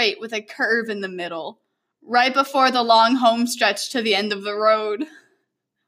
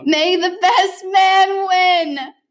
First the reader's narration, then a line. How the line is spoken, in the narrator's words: Kyle shouted